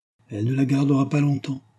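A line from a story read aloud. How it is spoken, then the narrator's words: Sadly. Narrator (French): fit tristement Mérov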